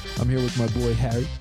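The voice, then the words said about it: Radio announcer voice. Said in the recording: “doing my radio voice”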